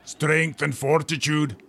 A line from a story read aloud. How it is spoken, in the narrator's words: Broughton roared again